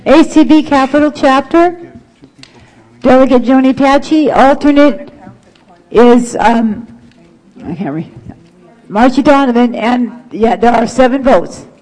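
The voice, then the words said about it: Strained, fading hoarse voice. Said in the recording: “I'm losing my voice, you guys. I'll do the best I can.”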